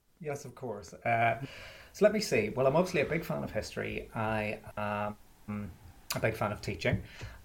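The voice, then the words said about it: Mellowed Belfast accent. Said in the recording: “I'm from Belfast, which you could possibly tell from the accent, but I haven't lived there in about 15 or 16 years, so it's mellowed a little bit.”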